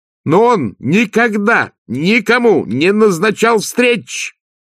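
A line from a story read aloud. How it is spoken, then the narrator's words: Much louder shout. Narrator (Russian): крикнула Агнесса гораздо громче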